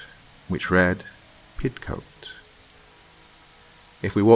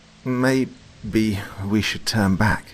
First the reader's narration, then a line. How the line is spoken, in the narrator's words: he said nervously